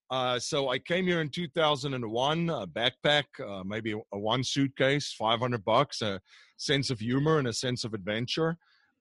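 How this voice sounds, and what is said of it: South African accent. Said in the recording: “I'm originally from South Africa, so the accent is not Pennsylvanian”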